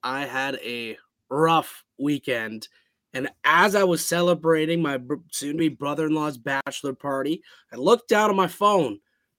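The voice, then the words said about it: Hoarse voice. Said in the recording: “my voice is hoarse”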